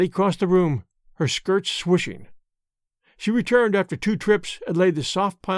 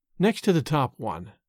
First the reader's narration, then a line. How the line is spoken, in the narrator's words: Sarah whispered, feebly